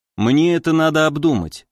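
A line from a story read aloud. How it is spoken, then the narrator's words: Calm. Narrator (Russian): спокойно сказал я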